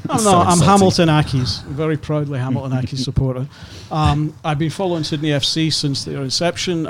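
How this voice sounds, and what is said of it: Scottish accent. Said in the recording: “I'm originally from Scotland, as you can probably tell from my accent.”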